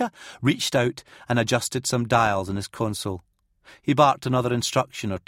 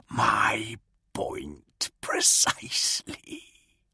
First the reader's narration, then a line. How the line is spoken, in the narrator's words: the silver guard rasped, amused